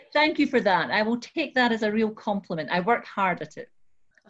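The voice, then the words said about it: Scottish accent. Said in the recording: “you've managed to keep your Scottish accent, by the way, far better than I've kept mine”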